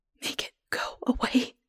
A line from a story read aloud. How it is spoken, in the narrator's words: I whisper